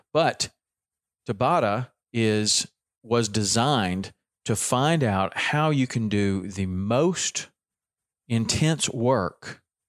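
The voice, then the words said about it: Southern US accent. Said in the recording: “my Southern accent coming through”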